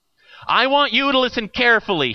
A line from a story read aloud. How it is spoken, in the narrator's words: shouted down